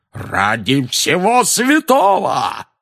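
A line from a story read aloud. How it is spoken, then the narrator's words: Roaring. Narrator (Russian): взревел дядя Вернон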